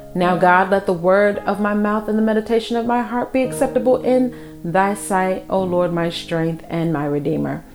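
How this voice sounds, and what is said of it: Congested, stuffy-sounding voice. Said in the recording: “as you can hear in my voice, the weather is changing. It's causing my allergies to flare up.”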